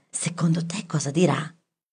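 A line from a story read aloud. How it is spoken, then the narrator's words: Whispered question. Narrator (Italian): in un sussurro chiese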